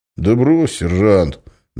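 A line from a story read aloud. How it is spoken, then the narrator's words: Good-natured deep bass. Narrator (Russian): добродушно пробасил майор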